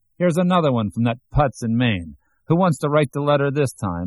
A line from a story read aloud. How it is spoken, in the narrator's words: one of them shouting